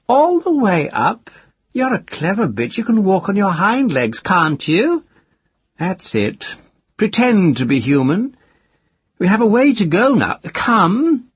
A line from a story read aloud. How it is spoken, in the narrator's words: He laughed, saying